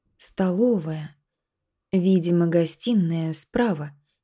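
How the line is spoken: Uncertain remark. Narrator (Russian): неуверенно заметила Надя

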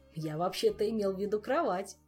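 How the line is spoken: Laughing. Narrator (Russian): засмеялся Шут

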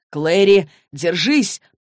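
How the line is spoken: Shouted. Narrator (Russian): прокричал Джейс

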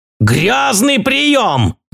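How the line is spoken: Roaring. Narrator (Russian): взревел он

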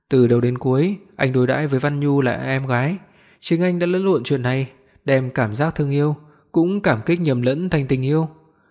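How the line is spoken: Hoarse, passionate. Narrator (Vietnamese): khàn khàn nói

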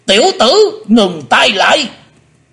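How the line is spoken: Shouting. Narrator (Vietnamese): Hải Âu quái khách quát lên

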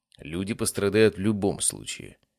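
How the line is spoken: Calm. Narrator (Russian): спокойно ответил я

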